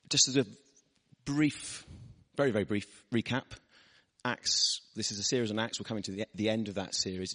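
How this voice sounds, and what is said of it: Husky, partly lost voice. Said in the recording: “I've lost my voice this week. And it's coming back, but not quite back there. So I'm sounding a bit more husky than normal.”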